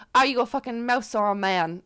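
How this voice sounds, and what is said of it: Poor put-on Irish accent. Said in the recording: “That was a terrible Irish accent”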